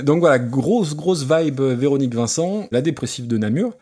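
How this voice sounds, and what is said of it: Put-on Belgian French accent. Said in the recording (French): “je fais pas l'accent euh, version Coluche. Moi, je peux t'en faire un autre. Si tu veux, je te fais toute la chronique en belge”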